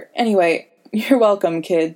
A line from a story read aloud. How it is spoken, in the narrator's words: Sam laughed